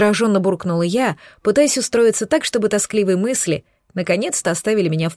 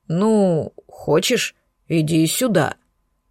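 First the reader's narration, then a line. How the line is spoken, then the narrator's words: Unsure dragon. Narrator (Russian): неуверенно предложил дракон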